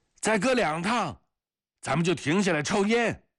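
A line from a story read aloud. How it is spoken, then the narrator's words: Shouting over machinery noise. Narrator (Chinese): 彼得罗透过收割机翼板的啸叫声和叶片的沙沙声喊着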